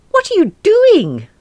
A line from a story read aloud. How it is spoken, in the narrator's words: Marilyn screeched